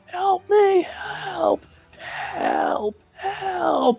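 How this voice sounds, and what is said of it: Very hoarse cry for help. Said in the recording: “very hoarse”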